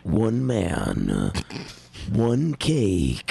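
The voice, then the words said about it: Dramatic movie trailer narrator voice. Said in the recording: “I was doing movie voice. ... So your first one was a movie guy. All right, do a movie guy”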